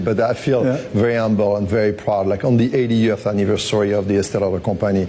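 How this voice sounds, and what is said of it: French-accented English. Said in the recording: “despite my French accent”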